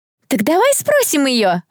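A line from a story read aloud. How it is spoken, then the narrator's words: Joyful yell. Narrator (Russian): радостно завопил кто-то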